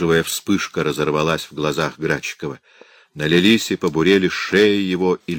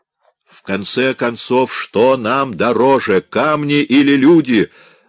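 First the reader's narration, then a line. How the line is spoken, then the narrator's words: Shouting out. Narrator (Russian): выкрикнул Градчиков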